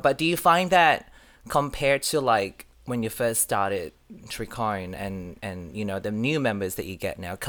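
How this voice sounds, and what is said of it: Mixed Malaysian-Australian accent. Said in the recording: “I've got a weird accent, I moved to Australia from Malaysia about 10 years ago”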